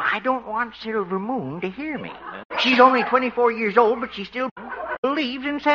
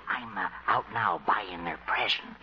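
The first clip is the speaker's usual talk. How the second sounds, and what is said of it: Whispering. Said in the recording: “What are you whispering about, Doc?”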